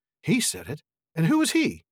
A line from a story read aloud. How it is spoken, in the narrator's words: asked Frodo eagerly